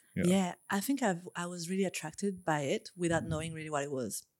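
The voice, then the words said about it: French accent. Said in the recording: “love the accent ... where's the accent from? She's like, France ... that is a nice French accent”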